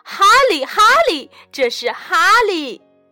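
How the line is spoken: Happy exclamation. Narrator (Chinese): 爸爸妈妈高兴地叫道

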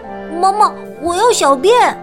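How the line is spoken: Child calling out. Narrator (Chinese): 尼诺他叫道

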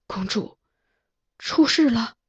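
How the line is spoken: Agitated, trembling voice. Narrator (Chinese): 我胸中气血腾涌，声音也在发颤

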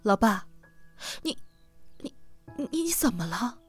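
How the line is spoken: Choked, tearful voice. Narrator (Chinese): 他就哽咽了，眼泪滚了满脸

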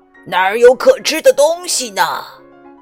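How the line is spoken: Lion roaring. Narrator (Chinese): 那只狮子咆哮着

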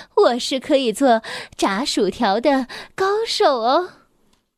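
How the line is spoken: Breathless. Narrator (Chinese): 他气喘吁吁地说

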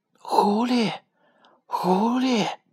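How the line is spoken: Soft call. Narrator (Chinese): 公鸡轻声的叫道

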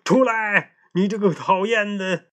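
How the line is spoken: Angry shouting. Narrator (Chinese): 呱唧意识到自己好像被撞了，生气的喊道

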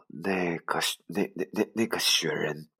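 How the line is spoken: Stammering. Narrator (Chinese): 我结结巴巴的说

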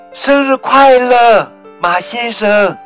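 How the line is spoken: Group shouting together. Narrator (Chinese): 鸡妈妈、小鸡们和小鸭子们……一起喊着

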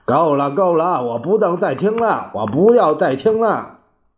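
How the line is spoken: Sudden anguished yell. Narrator (Chinese): 猛地，蒋介石大叫着

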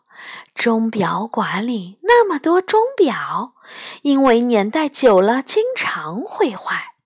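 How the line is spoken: Mysterious, hushed voice. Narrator (Chinese): 梨花一副很神秘的样子，压低声音说

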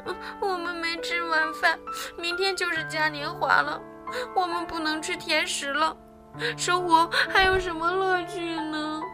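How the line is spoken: Crying. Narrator (Chinese): 阿米莉亚哭了起来

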